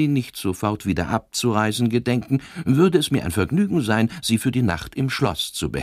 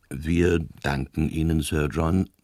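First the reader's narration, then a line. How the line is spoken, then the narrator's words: Priest's toneless voice. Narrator (German): sagte der Priester mit klangloser Stimme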